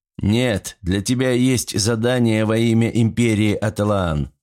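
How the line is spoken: Plain. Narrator (Russian): ответил Войкияси

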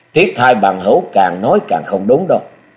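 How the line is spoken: Loud laughing. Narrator (Vietnamese): Hán tử áo xanh ngửa mặt cười lớn

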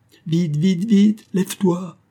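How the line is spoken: Exclaiming. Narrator (French): s'écria

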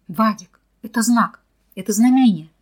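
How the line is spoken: Excited shout. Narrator (Russian): закричал Михаил

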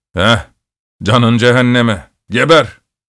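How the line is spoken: Shouted. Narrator (Turkish): diye bağırdı

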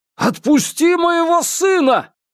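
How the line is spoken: Shouting. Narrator (Russian): крикнул Андрей

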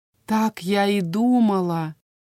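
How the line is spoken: Quiet. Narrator (Russian): негромко произнесла Анаис

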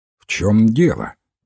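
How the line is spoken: Rather stern question. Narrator (Russian): довольно строго спросил Уилфред Боэн

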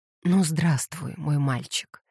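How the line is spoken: Quiet exclamation. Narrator (Russian): тихо воскликнула Кэтлин

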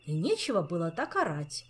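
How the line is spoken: Offhand remark. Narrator (Russian): как бы, между прочим, заметил Мафей

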